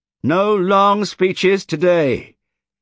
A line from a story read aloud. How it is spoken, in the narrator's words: shouted